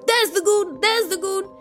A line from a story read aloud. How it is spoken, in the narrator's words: all the maids and servants and footmen will shout